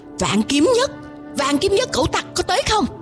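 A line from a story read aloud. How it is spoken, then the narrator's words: Shrill scream. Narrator (Vietnamese): lão hói Đoan Mộc lão tổ thét lên một tiếng lanh lảnh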